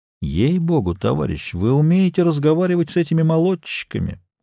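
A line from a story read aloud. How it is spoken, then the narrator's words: Respectful tone. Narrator (Russian): уважительным тоном сказал он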